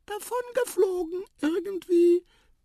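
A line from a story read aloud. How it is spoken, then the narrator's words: Mouse squeaking. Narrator (German): piepste die Maus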